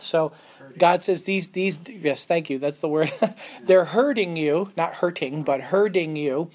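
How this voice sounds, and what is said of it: Connecticut accent. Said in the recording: “In Connecticut, herding and hurting are the same thing, so. ... My Connecticut accent.”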